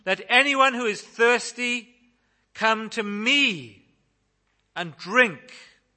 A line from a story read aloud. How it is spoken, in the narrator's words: Jesus ... said in a loud voice